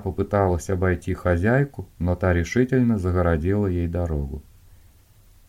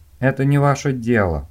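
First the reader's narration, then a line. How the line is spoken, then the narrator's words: Through gritted teeth. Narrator (Russian): процедила Дженни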